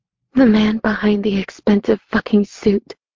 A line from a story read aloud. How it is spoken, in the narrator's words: my voice breaking, my body shaking